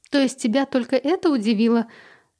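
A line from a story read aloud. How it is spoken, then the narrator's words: Laughing. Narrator (Russian): Лиза рассмеялась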